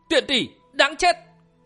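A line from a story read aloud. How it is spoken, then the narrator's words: Loud shout. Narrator (Vietnamese): Thiên Long bật dậy quát lớn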